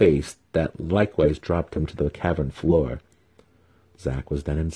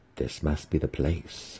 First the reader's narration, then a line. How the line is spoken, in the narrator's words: Zack muttered under his breath